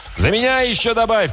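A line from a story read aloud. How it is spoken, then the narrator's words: Shout. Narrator (Russian): крикнул вслед Мутила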